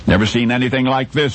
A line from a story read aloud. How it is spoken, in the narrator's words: one of the explorers exclaimed